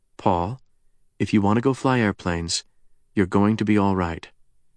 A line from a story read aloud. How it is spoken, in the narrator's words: the former Enola Gay haggard added quietly